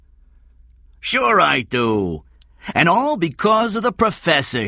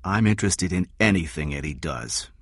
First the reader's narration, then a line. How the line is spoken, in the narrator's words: Kathy said softly